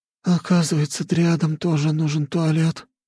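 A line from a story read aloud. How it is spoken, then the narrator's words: Groaning. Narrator (Russian): простонала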